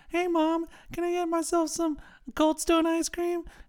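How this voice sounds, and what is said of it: High cracking child's voice. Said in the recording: “Why did your voice like crack really high on that? ... 10-year-old”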